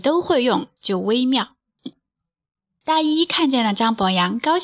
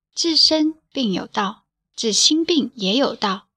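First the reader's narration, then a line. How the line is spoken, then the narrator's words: Soft voice. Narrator (Chinese): 扁鹊轻声说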